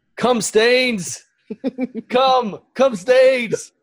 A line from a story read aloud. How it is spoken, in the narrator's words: yelling